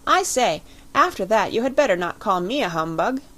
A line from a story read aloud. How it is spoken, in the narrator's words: cried Lord Lambeth